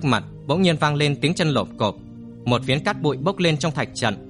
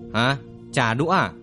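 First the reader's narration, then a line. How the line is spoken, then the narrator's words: Loud laughter. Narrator (Vietnamese): Lâu Đại Chiêu cười lớn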